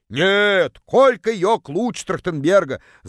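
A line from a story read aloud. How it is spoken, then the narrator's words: Distant yelling. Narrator (Russian): заорала одна из них из самого дальнего угла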